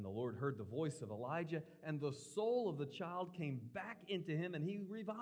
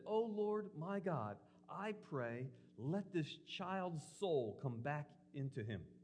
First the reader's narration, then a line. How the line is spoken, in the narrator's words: cried out to the Lord and said